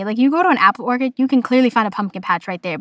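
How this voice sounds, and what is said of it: Boston accent. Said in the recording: “my Boston accent was coming out strong when referring to apple orchards. Orchards, orchids, orchids. ... the word sounded funny”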